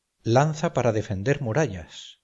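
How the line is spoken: Exclaiming through laughter. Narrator (Spanish): exclamé sin poder disimular la risa

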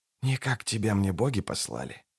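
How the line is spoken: Whisper. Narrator (Russian): шепнул Кайлей

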